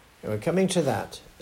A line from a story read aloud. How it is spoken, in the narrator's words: said Nancy